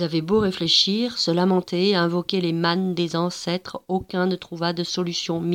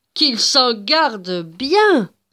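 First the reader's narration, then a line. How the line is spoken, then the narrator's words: Old man exclaiming. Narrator (French): s'exclama le vieil homme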